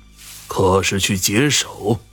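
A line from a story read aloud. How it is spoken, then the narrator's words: Stern. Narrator (Chinese): 主持声音严肃道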